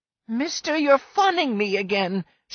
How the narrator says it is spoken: she cried angrily

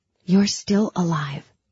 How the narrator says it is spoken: I whispered to myself in the dark

